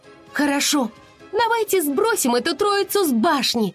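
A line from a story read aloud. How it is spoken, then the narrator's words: Shout. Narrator (Russian): закричала Муза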